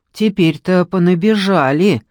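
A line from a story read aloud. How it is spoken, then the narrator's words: Grumbling cleaning woman. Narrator (Russian): ворчала уборщица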